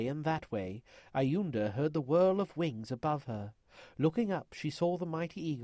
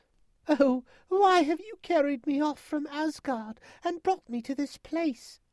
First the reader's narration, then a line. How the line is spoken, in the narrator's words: Iunda cried